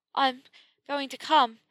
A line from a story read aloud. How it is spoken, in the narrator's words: she panted